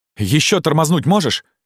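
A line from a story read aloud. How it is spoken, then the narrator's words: Shouted. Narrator (Russian): крикнул игрок Атону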